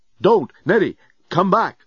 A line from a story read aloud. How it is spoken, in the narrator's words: Dan yelled